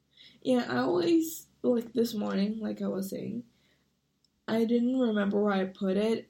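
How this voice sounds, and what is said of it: Hoarse voice. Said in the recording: “my voice is so hoarse”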